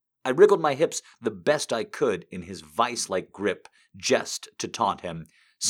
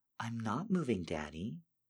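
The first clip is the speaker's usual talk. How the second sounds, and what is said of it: Sweet, sugary voice. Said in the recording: “I replied in my sweetest voice.”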